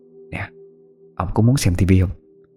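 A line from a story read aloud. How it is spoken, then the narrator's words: Whisper. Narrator (Vietnamese): Mụ ghé sát tai chồng thì thầm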